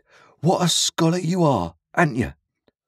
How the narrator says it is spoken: cried Joe

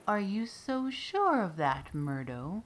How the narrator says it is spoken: purred softly

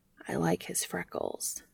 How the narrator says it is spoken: the bee whispered

